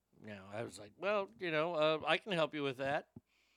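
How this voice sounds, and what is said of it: Usual voice. Nothing is said of it.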